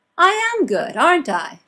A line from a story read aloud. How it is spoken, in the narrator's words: She says, loudly, trying to believe those words the way Martha does